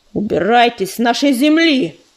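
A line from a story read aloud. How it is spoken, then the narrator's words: Growled. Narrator (Russian): прорычал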